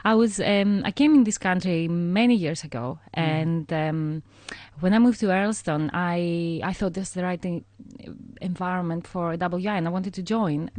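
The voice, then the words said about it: Greek accent. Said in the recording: “as people gather from your accent, you're not from these parts ... you're from Greece”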